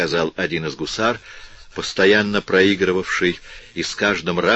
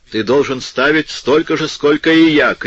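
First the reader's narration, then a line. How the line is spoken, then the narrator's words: Happy shout, cavalryman. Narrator (Russian): крикнул ему, счастливо улыбаясь, улан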